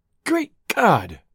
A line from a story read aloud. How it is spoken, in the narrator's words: cried